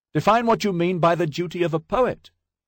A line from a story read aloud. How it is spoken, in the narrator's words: hollered